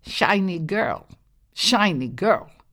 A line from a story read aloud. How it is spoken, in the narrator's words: a huge, big-bellied bullfrog next to the well croaked